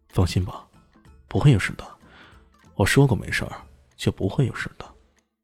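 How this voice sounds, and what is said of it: Unusually gentle, tender voice. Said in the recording (Chinese): “用异常温柔的声音说道”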